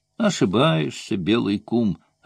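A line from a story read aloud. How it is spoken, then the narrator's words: Plain. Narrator (Russian): ответил Моко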